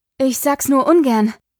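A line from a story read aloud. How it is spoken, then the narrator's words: Breathless panting. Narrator (German): keuchte Pandora, als sie Espen erreicht hatte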